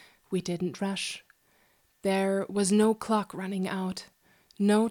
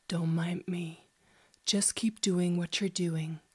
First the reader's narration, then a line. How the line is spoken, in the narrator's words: deep voice whispered